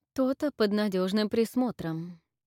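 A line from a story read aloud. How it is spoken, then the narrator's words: Even voice. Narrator (Russian): произнесла Детью с ровным голосом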